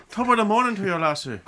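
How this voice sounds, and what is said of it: Put-on Irish accent. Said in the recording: “was she also picking up the Irish accent?”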